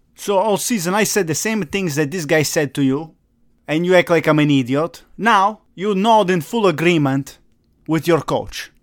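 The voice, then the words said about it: Speaks with a noticeable accent. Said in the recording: “Oh, I have an accent too.”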